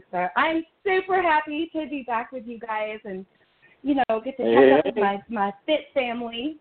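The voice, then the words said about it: Southern American accent. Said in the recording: “I have the original Southern accent ... If we talk long enough, it'll get thicker”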